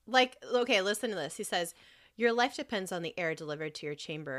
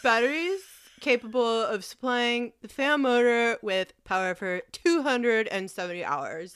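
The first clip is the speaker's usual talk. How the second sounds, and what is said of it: Mocking nerdy neckbeard reading voice. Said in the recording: “talk like a neckbeard asshole whenever I read it ... That's how I make the fucking voice”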